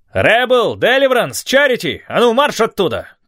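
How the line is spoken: Shouted. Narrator (Russian): крикнул Рикавери

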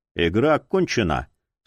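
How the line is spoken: Dry, calm. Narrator (Russian): сухо произнес Прайс, чувствуя себя профессионально спокойным

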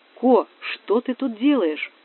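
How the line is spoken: Loud whisper. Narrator (Russian): Громко прошептала она

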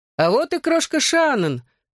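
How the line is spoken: Said joyfully. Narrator (Russian): радостно сказал Гипси

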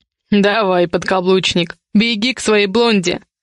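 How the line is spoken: Smirking snort. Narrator (Russian): хмыкнул я

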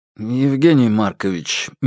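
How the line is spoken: Gentle opening. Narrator (Russian): мягко начал Фальк

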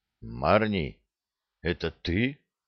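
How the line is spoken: Muffled male question. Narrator (Russian): глухо спросил он

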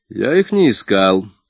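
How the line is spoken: Cold reply, inspector. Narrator (Russian): холодно ответил инспектор

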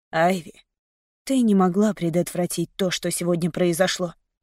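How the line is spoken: Muttered. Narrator (Russian): пробормотал он

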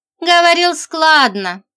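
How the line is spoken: Sighing. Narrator (Russian): вздохнула Женька

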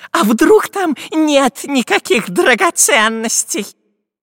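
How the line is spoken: Doubtful squeak. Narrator (Russian): С сомнением пропищал разбойник Дырка

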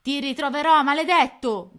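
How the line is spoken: Shouted. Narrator (Italian): gridava Coda Nera

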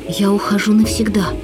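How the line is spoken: Plain. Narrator (Russian): сказал художник

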